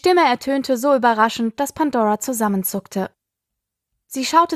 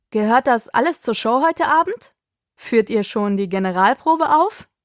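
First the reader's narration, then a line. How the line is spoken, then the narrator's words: Uncontrollable laughter. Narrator (German): Er lachte und konnte ganz offensichtlich gar nicht mehr damit aufhören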